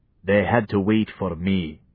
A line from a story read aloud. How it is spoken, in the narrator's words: he said